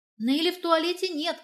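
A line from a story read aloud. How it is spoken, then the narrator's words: Shout. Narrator (Russian): крикнула я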